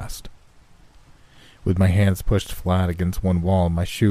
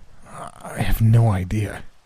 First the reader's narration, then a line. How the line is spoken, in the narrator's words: Guy said through gritted teeth